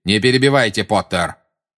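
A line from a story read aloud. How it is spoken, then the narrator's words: Threatening tone. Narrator (Russian): угрожающим тоном сказал Снег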